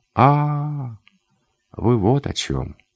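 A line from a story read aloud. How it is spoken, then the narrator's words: Calm. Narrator (Russian): сказал он спокойно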